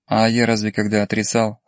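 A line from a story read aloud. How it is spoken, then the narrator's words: Officer's snort. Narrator (Russian): хмыкнул майор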